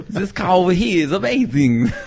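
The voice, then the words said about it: Mock imitation of another person's accent. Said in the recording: “if we're going to make fun of my accent, what was that exactly?”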